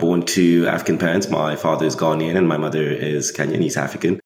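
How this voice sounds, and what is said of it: British-school English accent. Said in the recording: “English school, hence the accent”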